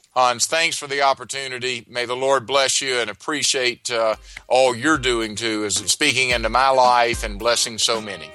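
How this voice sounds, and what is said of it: Southern US accent. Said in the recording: “fellow Southerner ... Love that accent.”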